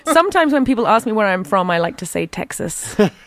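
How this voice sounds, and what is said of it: Posh Southern English accent. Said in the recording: “my outrageous English accent ... You can tell I'm from the South. My accent is posh.”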